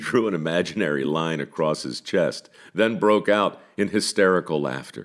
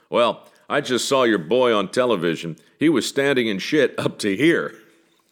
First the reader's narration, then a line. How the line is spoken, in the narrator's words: The elderly gentleman saying in a gruff, booming voice